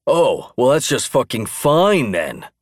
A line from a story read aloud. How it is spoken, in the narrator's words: Clark boomed sarcastically, unconsciously abandoning his strive for quietness